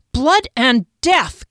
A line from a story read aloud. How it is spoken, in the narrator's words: Kier yelled